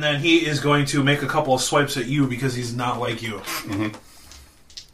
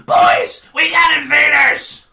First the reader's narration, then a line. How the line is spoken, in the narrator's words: Krenko, and he's going to yell